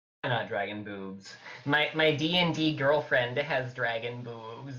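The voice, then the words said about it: Impression of a cartoon character voice. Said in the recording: “your Nigel Thornberry impression”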